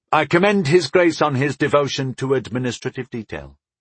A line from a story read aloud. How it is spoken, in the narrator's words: I said smoothly